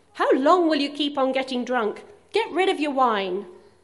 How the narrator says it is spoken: Angrily, calling out loudly

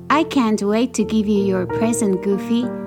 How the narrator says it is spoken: she said

